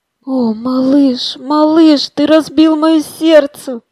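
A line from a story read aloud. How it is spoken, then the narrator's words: Moaning woman. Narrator (Russian): простонала она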